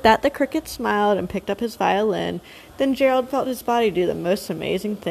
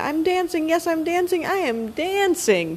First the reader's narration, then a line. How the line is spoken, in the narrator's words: Gerald cried